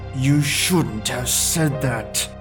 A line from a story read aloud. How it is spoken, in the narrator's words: he growled through his teeth